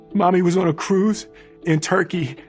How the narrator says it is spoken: Ellen wailed

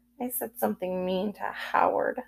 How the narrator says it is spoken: I muttered

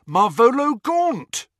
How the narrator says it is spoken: A filthy old man, he cried aloud

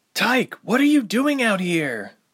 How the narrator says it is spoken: yelled in exasperation

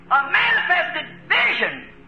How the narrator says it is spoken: he cried out

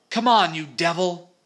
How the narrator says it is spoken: Alf was shouting

